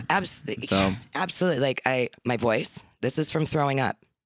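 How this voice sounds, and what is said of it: Raspy, gravelly worn voice. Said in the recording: “my voice sounds like this ... worn that away a little bit ... I rasped it. Gravelly voice.”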